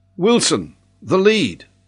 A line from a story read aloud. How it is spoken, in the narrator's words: John called out